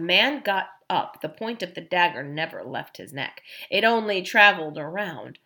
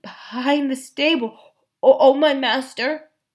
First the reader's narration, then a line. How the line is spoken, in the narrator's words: stammered the unfortunate man